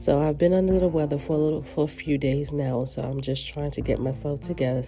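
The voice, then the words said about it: Nasal, congested voice. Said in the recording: “I sound a little nasally”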